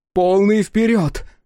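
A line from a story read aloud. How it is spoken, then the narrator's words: Shouted. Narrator (Russian): крикнула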